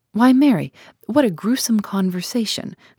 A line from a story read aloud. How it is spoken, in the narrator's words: cried Mrs